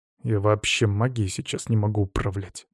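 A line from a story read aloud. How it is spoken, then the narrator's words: Young man grumbling. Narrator (Russian): буркнул парень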